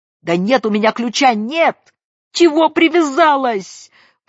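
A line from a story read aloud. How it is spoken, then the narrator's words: Shrill frightened old woman's shout. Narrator (Russian): пронзительно и испуганно крикнула бабка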